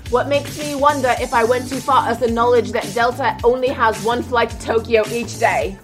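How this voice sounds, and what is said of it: Put-on British accent. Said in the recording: “likes my British accent”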